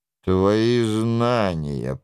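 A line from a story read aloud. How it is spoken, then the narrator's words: Contemptuous grumble. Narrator (Russian): проворчал Лойола с презрением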